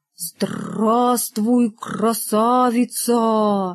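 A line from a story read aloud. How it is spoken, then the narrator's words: Sepulchral voice. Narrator (Russian): Рогов за могильным голосом сказал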